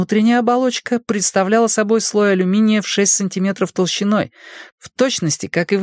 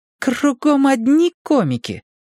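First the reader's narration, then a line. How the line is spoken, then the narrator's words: Grumbling. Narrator (Russian): проворчала я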